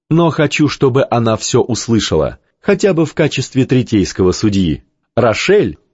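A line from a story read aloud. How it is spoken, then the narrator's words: Laughing softly. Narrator (Russian): Ванда снова засмеялась, уже тише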